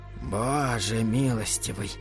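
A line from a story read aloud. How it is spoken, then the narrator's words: Whisper. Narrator (Russian): прошептал Холоран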